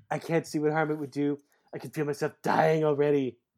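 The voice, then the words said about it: Imitates another person's voice. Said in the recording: “can you do the mayor's lines in a Trump voice? ... Yes, absolutely. ... I can't imagine him saying the word harm.”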